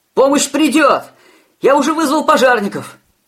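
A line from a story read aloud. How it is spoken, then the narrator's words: Frightened, panicked shout. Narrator (Russian): Испуганно прокричал он, обезумевший от ужаса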